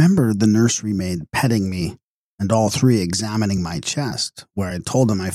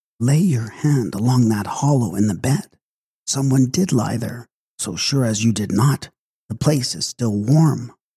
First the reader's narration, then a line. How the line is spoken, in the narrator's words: the housekeeper whispered to the nurse